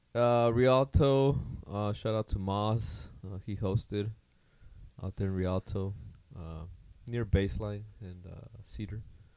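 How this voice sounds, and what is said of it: Slightly hoarse, worn-out voice. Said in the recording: “My voice is a little gone. ... It's from yesterday's game.”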